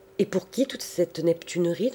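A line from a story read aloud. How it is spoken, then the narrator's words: Plain question. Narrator (French): demanda-t-il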